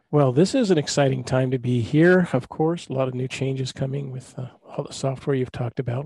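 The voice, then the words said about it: Hoarse voice from a cold. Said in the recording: “My cold is doing fine... I sound kind of hoarse”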